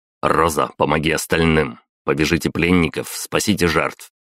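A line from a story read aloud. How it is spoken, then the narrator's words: Sharp. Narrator (Russian): резко произнес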